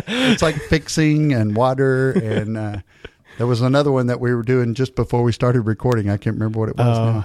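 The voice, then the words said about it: East Texas accent. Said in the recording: “I really hear the accent when I put the headphones on ... we need that East Texas flavor in the show”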